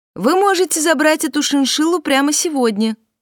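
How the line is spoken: Shout. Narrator (Russian): крикнула

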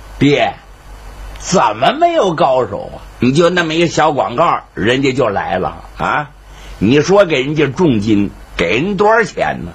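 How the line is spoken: Laughing. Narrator (Chinese): 沈玉成笑了

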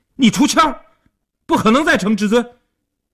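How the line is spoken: Anxious loud yelling. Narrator (Chinese): 阿生一看急了，大声地嚷道

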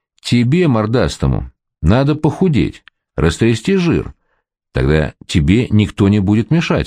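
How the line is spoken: Plain. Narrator (Russian): сказал я

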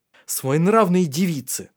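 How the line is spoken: Snapping. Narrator (Russian): огрызнулся Тари

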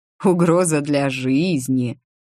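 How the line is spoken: Mocking drawl. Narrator (Russian): насмешливо протянул Ричард

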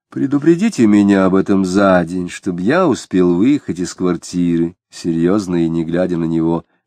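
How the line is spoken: Plain. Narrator (Russian): сказал Самгин

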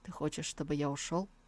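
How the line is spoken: Interrupting. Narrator (Russian): он перебил ее

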